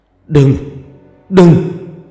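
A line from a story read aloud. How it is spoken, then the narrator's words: Shout in broken Vietnamese. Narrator (Vietnamese): quát lên một câu tiếng Việt không sõi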